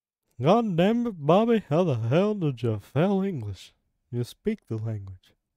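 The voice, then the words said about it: Imitates another person's voice. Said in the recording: “I'm going to do a quick impression.”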